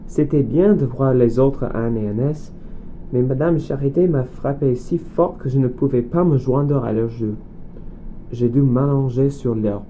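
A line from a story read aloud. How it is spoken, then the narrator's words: Sighing. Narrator (French): dit Zell en soupirant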